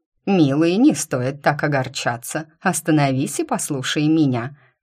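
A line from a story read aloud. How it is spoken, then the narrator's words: Confident admonishing. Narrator (Russian): уверенным тоном увещевала сына леди не случившаяся свекровь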